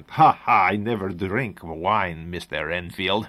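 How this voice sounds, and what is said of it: Imperfect put-on Eastern European accent. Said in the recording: “Middle European, Eastern European accent. ... I wish I could do that better.”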